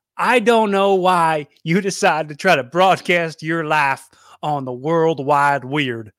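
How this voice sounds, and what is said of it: Put-on redneck Texas accent. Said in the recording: “I'm giving my dad like a redneck accent. He lives in Texas.”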